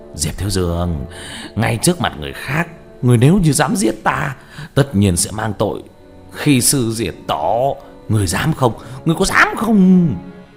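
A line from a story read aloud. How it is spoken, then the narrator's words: Laughing loudly. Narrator (Vietnamese): Ngọc Kỳ Tử cười lớn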